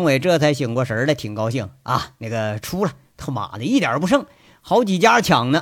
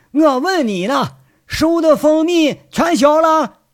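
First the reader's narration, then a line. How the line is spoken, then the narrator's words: Shouting. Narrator (Chinese): 七叔在那喊呢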